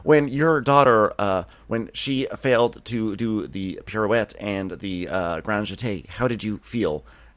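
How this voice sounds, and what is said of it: Holly Hunter impression. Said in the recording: “that was the world premiere of my Holly Hunter impersonation”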